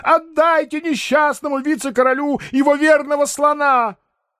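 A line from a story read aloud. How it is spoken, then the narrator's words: Sudden yell. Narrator (Russian): спохватившись, сейчас же завопил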